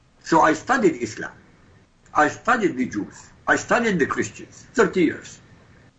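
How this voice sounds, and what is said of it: Iraqi Arabic accent. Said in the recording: “I come from Iraq, by the way. You can tell by my accent, maybe. I come from Baghdad.”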